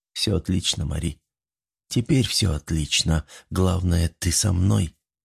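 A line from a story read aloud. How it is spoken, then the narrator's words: Quiet. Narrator (Russian): тихо ответил он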